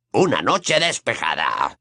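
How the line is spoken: Growling. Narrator (Spanish): gruñó Moody

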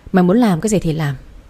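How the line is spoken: Sighing. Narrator (Vietnamese): Bà thở dài nói

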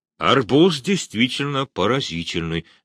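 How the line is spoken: Plain. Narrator (Russian): сказал Муравьев

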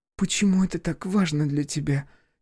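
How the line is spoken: Quiet question. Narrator (Russian): тихо спросила Полина

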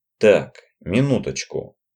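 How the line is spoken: Quiet. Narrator (Russian): произнес Роджер негромко

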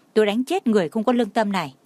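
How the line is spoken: Angry. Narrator (Vietnamese): tức giận nói

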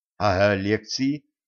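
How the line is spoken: Timid. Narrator (Russian): робко вспомнила Женька

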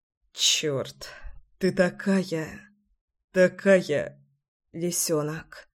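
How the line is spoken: Muffled muttering. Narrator (Russian): Бормотал в мою шею

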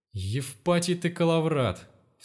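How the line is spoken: Exasperated exclamation. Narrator (Russian): в сердцах воскликнул Степан

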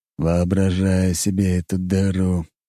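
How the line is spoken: Gloomy remark. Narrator (Russian): мрачно заметил Дориан

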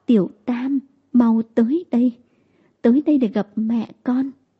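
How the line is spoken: Trembling voice. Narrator (Vietnamese): giọng nói run run

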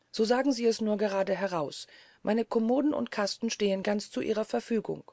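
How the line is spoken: Sharp retort. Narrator (German): entgegnete Josephine mit eigentümlich scharfem Ton

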